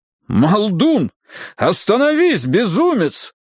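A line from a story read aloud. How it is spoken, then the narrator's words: Urgent exclamation. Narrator (Russian): призывно воскликнул Седжвард Прискетт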